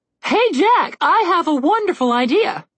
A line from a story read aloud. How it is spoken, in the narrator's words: the harp called out